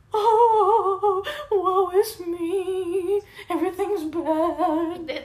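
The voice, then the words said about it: Bad fake crying voice. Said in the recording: “That's the worst crying impression ever.”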